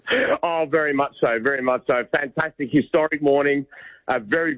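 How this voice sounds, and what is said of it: Scratchy voice. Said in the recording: “his voice is a bit scratchy because his old team had a big win yesterday morning”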